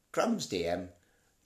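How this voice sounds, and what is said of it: Imitates a cartoon character's voice. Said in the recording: “That's not really a very good impression of him.”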